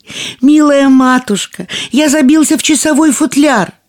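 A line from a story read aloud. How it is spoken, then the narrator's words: Thin little voice shouting. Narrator (Russian): тоненький голосок прокричал ей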